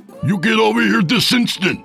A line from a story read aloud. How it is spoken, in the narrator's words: screamed